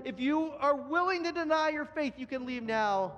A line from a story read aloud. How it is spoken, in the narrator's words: yelled it again